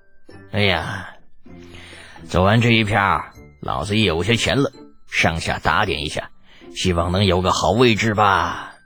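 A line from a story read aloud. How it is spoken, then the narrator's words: Exhaling sigh. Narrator (Chinese): 陆成福吐出一口浊气，叹道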